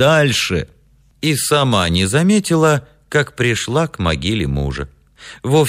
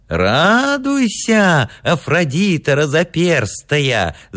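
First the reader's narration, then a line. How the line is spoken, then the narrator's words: Old yet childlike shout. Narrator (Russian): закричал старчески детским голосом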